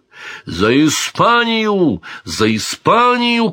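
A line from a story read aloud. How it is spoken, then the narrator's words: Shouting. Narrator (Russian): кричал Дон Гонсало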